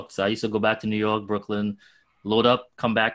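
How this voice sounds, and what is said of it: Strong Trinidadian accent. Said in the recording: “if you can hear my accent, it sounds like I just got here yesterday”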